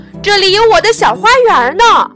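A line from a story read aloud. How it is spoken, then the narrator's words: Calling out. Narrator (Chinese): 白兔子喊道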